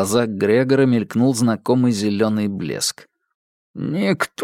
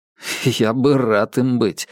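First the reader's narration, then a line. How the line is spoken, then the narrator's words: Wry snort. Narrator (Russian): хмыкнул Марк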